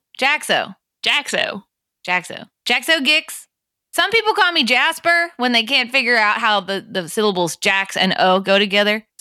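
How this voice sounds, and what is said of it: Speaks with a put-on accent. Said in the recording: “your accent”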